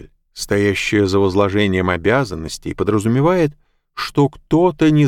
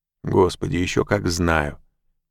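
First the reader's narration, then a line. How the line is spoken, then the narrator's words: Mutter. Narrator (Russian): пробормотал Мак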